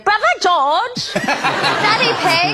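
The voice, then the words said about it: Imitated Peppa Pig cartoon accent. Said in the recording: “Those accents just live in my head from Peppa Pig.”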